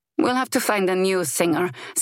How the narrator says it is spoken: Zeva grumbled

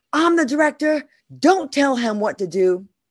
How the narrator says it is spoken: He yelled

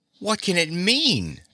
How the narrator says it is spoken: Dorothy cried

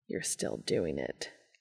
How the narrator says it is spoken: Cass grumbled, feeling his cheeks go pink

